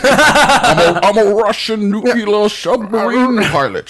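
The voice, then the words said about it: Sean Connery Scottish accent impression. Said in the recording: “You know who has the best Scottish accent? ... Mr. Sean Connery. ... That explains the accent.”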